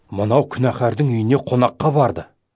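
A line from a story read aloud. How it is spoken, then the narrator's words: Grumbling murmur. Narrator (Kazakh): деп күңкілдесе бастады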